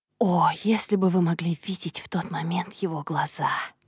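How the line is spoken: Whisper. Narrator (Russian): Прошептала

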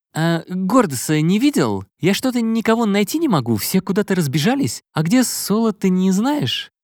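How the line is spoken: Uncertain question. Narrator (Russian): как-то неуверенно спросил он

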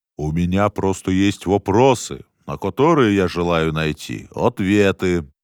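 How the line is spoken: Lofty tone. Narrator (Russian): произнес он возвышенным тоном

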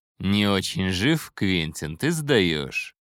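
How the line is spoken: Mocking. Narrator (Russian): насмешливо заметил Хэппи

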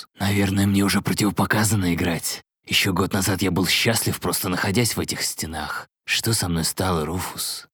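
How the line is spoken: Uncertain breathless whisper. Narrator (Russian): Неуверенный шепот Азраила растворялся в прерывистом дыхании

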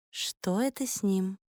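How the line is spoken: Quiet question. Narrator (Russian): тихо спросила Соло

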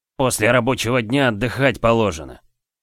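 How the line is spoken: Through gritted teeth. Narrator (Russian): процедил Сиен сквозь зубы

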